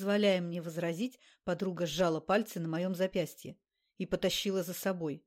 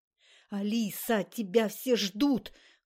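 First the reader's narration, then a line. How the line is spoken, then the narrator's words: Annoyed hiss. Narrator (Russian): Ксюша зашипела от досады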